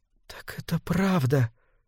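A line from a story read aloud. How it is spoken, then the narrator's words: Whisper. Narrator (Russian): прошептала она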